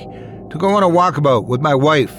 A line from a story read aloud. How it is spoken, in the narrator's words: I shouted as I tried to escape the sinking dunes